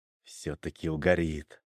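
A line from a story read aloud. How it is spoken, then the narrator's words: Satisfied mutter. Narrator (Russian): удовлетворенно пробурчал я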